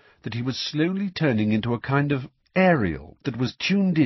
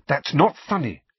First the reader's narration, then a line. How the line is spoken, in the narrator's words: said Hermione sharply